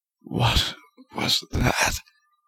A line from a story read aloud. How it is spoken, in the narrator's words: groaned